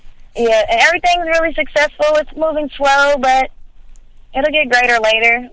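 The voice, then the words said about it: Southern US accent. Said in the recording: “I live in Atlanta, Georgia ... I can hear that accent.”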